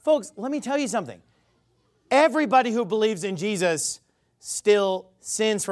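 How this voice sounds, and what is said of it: Usual voice. Nothing is said of it.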